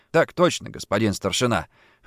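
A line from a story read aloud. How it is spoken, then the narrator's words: Grumbled. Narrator (Russian): буркнул Джордан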